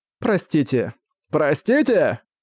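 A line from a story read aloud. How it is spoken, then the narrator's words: Fierce shout. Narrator (Russian): Парень, будто услышав жестокую насмешку, со свирепым видом закричал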